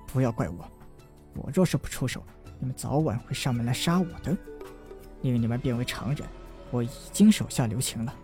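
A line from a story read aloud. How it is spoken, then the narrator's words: Inner sighing thought. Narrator (Chinese): 他在心中叹道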